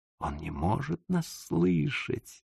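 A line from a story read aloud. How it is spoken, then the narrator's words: Worried whisper. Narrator (Russian): с беспокойством прошептал мне в самое ухо мой двойник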